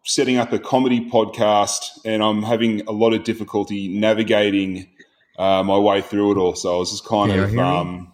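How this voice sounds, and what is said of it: Australian accent. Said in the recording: “I thought I recognized the accent ... From Melbourne in Australia”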